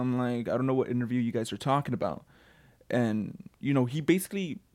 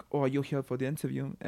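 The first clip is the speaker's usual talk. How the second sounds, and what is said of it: Imitates the boss's accent. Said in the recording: “I know I shouldn't make the accent, but it's like, you know, that's how our boss is.”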